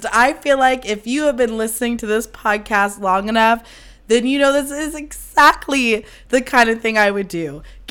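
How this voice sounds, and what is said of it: Hoarse, lost voice. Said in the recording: “lose your voice ... lose my fucking voice”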